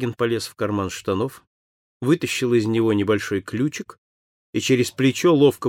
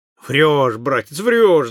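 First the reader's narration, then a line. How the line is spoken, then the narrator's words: Shouting. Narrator (Russian): закричал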